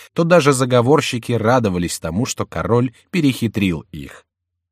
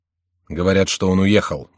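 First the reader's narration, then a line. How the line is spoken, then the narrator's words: Gloomy count answering. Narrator (Russian): мрачно отвечал граф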